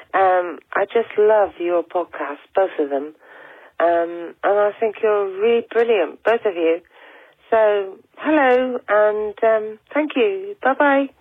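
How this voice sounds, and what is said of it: Devon English accent. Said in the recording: “I'm from Plymouth in Devon in the UK, so you might detect a Devon accent”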